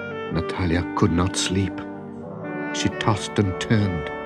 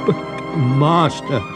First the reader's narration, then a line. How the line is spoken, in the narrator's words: stammered